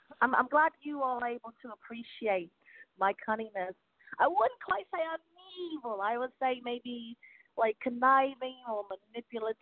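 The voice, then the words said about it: British woman's accent. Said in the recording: “I love your accent... Your accent... a British woman”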